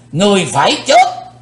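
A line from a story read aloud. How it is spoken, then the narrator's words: Old man thundering roar. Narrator (Vietnamese): lão thủ tịch hộ pháp gầm tợ sấm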